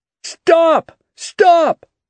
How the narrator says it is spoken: cried Hal

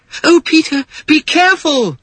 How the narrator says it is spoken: cried Wendy

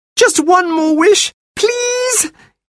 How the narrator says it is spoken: he begged the sand fairy

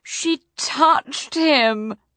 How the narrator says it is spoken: moaned Prince Humperdinck

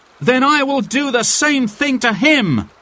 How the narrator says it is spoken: cried Will Scarlet

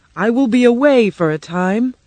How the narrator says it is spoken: he said in a loud voice

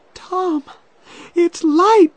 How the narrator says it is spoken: she cried

